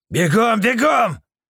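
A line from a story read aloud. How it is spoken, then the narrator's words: Yelling. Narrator (Russian): заорал Люд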